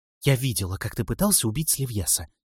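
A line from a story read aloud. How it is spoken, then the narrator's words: Sullen whisper. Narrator (Russian): угрюмо шепнула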